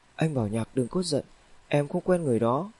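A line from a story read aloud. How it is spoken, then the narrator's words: Hasty soothing quiet voice. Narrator (Vietnamese): Hình như là nhận thấy tâm trạng của Vương Bảo Nhạc không tốt, nên Chu Tiểu Nhã vội nhỏ giọng nói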